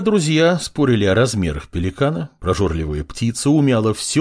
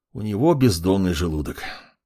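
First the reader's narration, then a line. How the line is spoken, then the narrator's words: Sigh. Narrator (Russian): вздохнул маг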